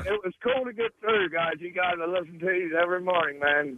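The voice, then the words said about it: Southern drawl accent. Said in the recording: “you have a southern accent? ... You have to have a drawl.”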